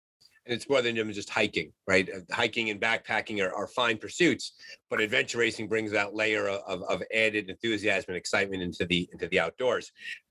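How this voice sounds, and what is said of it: Regional American accent. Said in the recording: “As our listeners can tell by my accent and by your accent, we're not exactly from the same part of the country”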